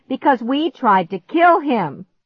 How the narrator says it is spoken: shouted at him

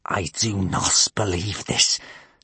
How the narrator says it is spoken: spluttered Gumboil

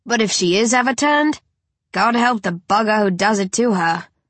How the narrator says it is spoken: Shane growls

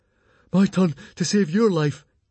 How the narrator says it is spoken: gasped Fishlegs

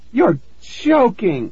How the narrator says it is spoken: I cried

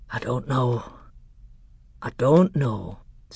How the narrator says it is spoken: said the Doctor with a deep sigh

